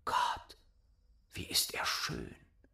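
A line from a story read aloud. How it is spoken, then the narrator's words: Whisper. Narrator (German): flüsterte Däumelinchen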